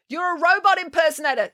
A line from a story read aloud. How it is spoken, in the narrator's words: yelled Tammy